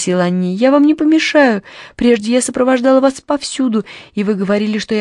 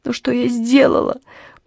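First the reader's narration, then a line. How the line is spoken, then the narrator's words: Sobbing. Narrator (Russian): прорыдала Анни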